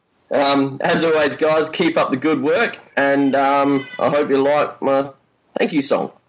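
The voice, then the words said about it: Poor put-on Australian accent. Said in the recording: “our Australian accent ... his were rubbish ... It was awful”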